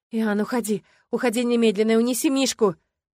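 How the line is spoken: Shouting, strength failing. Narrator (Russian): Закричала я, ощущая, как иссякает магия

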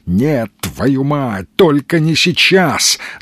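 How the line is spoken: Growling. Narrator (Russian): зарычал Сергей

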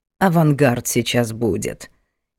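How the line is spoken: Displeased neighbor explaining. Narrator (Russian): недовольным голосом просветила Надина соседка

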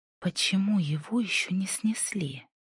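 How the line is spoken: Whisper. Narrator (Russian): прошептала Инди

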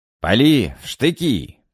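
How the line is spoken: Officers shouting. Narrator (Russian): прокричали офицеры

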